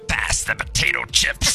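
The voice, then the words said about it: Poor imitation of another person's voice. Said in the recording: “That was a terrible impression, ... That was just awful.”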